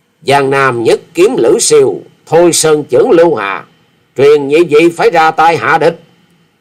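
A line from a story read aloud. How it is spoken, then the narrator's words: Furious, teeth grinding. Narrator (Vietnamese): Quyết Ma Thể Y Nhân đã hết nổi chế dằn được, thì giận dữ nghiến răng ken két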